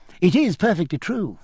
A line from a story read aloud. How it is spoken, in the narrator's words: cried Cecilia